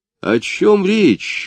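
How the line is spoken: Sudden exclamation. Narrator (Russian): вдруг воскликнул он

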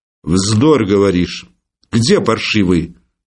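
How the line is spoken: Stern, clipped question. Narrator (Russian): строго и отрывисто спрашивал хозяин

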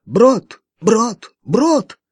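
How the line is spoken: Excited hoarse shouting. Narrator (Russian): он встрепенулся и, подпрыгивая на месте, начал хрипло выкрикивать

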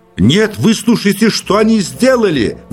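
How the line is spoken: Shouted. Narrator (Russian): в ответ закричал, не слушая Персиков

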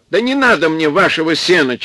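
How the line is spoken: Near-tearful shout. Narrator (Russian): чуть не со слезами крикнул Солодовников

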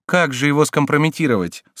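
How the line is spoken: Plain. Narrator (Russian): спросила герцогиня

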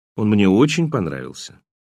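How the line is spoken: Calm remark. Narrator (Russian): я спокойно заметил

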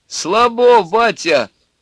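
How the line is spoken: Shout from young crowd. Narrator (Russian): крикнули из компании молодых

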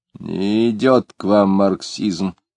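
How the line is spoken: Grumbling. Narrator (Russian): проворчал Муракуев

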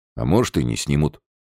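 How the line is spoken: Suddenly firmer voice. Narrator (Russian): внезапно окрепшим голосом выговорил Лазарев

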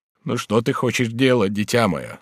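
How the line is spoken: Plain. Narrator (Russian): спросил Бюва

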